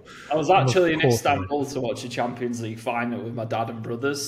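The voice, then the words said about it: English Mancunian accent. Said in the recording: “I recognized that English accent... I'm starting to sound American... a Mancunian always spots another Mancunian”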